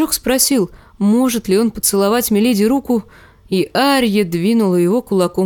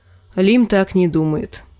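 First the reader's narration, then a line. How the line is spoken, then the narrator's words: Gloomy. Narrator (Russian): мрачно сказала Арья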